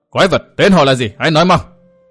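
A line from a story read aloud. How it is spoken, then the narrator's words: Loud barking shout. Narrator (Vietnamese): Thiên Ngoại Kiếm Ma quát lớn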